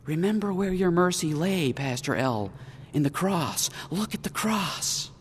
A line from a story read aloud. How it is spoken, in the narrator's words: Someone to whisper